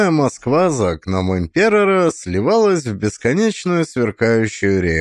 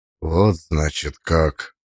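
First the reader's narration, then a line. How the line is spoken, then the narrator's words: Hollow, muffled voice. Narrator (Russian): произнес он, наконец, с глухим голосом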